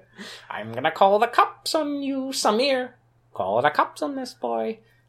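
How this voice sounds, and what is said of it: Old lady voice. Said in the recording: “This is my old lady voice.”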